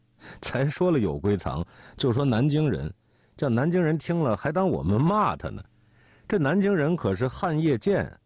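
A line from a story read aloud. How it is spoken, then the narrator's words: Laughing. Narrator (Chinese): 我笑说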